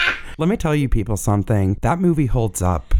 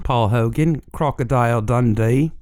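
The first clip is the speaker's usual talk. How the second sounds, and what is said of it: Slight accent imitating Crocodile Dundee. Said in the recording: “Did you just say Crocodile Dundee with an accent? ... With a slight accent.”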